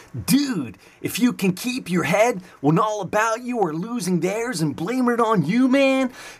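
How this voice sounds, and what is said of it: Put-on California surfer accent. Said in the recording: “California accent from New Jersey”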